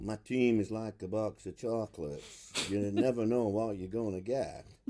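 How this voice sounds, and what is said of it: Imitates Forrest Gump's voice. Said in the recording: “It's not the worst impression I've heard. ... It's just bizarre, though. ... It was Forrest Gump.”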